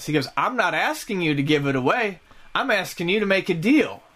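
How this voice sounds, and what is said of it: Put-on Southern US accent. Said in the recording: “this person has a southern accent, because he's not southern ... random customer accent”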